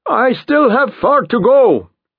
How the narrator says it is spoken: Tomas shouts

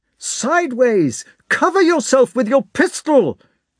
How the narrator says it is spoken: shouted Nesvitsky

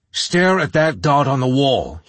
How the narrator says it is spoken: he barked

